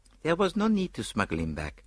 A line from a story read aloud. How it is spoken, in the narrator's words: replied Poirot dryly